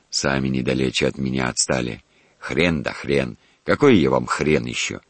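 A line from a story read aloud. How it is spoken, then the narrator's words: Old man's mock-angry grumble. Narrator (Russian): как бы взаправду сердясь, проворчал старый дворецкий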